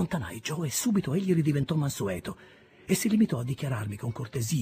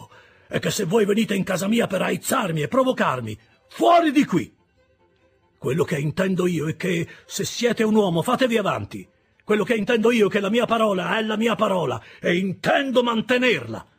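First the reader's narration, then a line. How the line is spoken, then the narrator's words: Shouting. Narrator (Italian): gridò Joe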